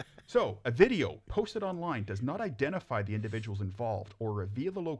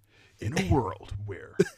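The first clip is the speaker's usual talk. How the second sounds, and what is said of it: Dramatic movie trailer narrator voice. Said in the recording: “I should put my movie trailer voice on.”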